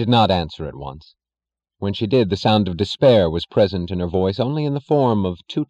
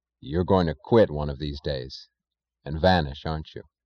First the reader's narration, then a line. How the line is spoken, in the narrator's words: he asked quietly